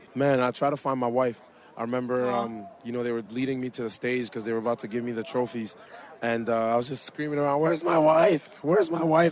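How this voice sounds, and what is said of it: Hoarse, strained, nearly lost voice. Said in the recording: “My voice is still gone from the game.”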